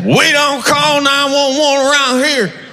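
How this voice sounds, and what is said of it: Put-on Southern accent. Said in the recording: “gave that bumper sticker a southern accent”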